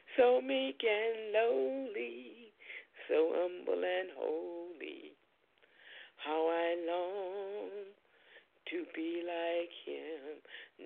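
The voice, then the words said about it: Cracking singing voice. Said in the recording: “My voice is cracking”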